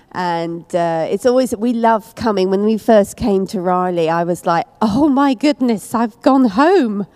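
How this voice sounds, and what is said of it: English accent. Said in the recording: “that weird accent, it is English. ... And not Southern Texas, no.”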